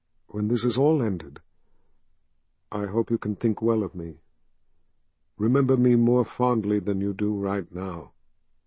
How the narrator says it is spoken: she said in a soft voice

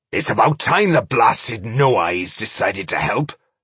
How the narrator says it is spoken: snorted Boindil

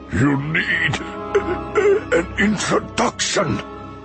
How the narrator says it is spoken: Dooku choked out

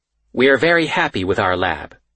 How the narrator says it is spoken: she says

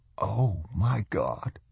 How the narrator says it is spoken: said hoarsely

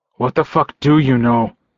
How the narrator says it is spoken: I snarled at him

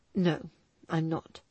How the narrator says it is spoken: he replied tightly

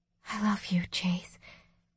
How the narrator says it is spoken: I whispered

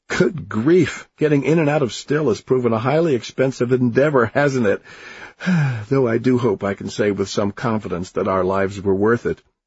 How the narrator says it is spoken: he said, still laughing

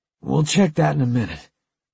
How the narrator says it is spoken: Hicks said hoarsely

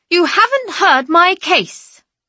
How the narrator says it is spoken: say, as loudly as I can without shouting

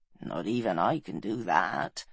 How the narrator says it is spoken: answered Taliesin wearily

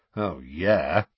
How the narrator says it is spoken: said Sirius sarcastically

